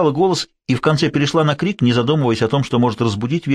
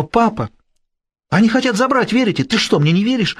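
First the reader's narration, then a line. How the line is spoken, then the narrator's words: Exclaiming. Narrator (Russian): Она воскликнула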